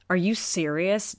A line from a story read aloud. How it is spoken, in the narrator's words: Dash hissed